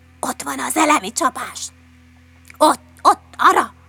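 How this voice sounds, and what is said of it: Whispering. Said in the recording (Hungarian): “suttogták”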